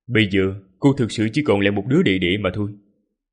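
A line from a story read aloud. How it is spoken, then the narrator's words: Cold speech. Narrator (Vietnamese): Ninh Khuyết lạnh lùng nói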